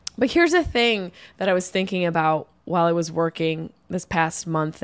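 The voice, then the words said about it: Tired, low-energy voice. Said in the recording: “I'm sure you can hear it in my voice that I am not my normal energy level”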